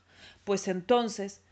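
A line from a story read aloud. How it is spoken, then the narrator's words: Smoky roar. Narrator (Spanish): rugió con su gran boca negra de humo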